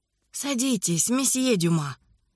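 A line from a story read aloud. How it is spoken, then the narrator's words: Very soft voice. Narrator (Russian): сказал голос, звучавший так мягко, будто слова покоились на ложе из мха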